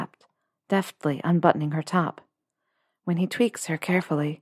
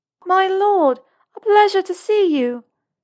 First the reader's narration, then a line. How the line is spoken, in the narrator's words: she announces loudly to the room, dramatic and rehearsed